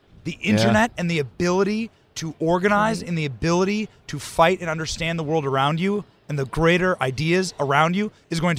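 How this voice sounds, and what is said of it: Strained, worn-out voice. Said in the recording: “my voice is like this. ... My voice is like this because I've been yelling.”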